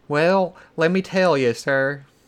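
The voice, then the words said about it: Exaggerated southern accent impression. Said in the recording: “Whose accent was that? ... That's a terrible. ... I just imagine him sounding, having this like, just yucking it up, southern accent.”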